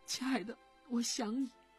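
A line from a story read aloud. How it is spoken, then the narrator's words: Crying girl. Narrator (Chinese): 女孩子终于哭出来，对着手机说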